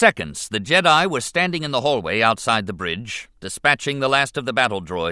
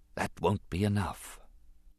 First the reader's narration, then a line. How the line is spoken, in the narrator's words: His voice was small and went unheard as he whispered to himself